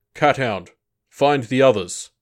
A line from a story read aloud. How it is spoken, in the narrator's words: the Wasp commander called out